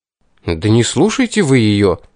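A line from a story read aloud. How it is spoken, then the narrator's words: Indignant demand. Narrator (Russian): возмущенно потребовал я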